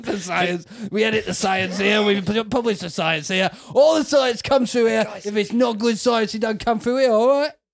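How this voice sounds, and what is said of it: Shifting put-on accent. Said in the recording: “Your accent's changing.”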